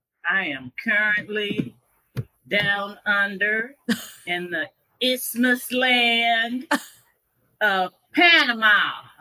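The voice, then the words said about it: American accent with Southern touch. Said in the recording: “You clearly got an American accent... I got that Southern accent too”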